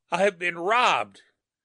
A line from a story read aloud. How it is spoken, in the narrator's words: he croaked harshly